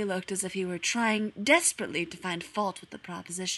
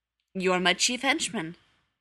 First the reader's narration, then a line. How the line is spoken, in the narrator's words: he said